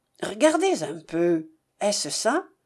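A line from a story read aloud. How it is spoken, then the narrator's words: Satisfied tone. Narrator (French): d'un ton satisfait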